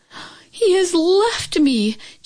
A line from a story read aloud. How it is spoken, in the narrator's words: Chin Yu Min cried out